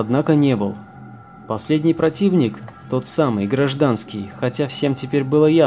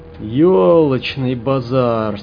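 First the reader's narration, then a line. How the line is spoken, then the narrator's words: Dejected drawl. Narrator (Russian): сокрушенно протянул Хаус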